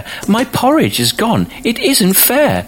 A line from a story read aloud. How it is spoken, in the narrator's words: cried the baby bear